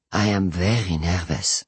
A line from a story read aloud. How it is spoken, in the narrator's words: Perry says quietly